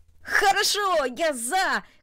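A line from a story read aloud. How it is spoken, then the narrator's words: Shouting. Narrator (Russian): крикнул он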